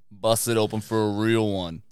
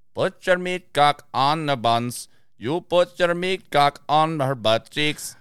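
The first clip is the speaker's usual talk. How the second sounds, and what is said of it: Imitates reggae singing. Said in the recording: “my best impersonation ... an example of a reggae song”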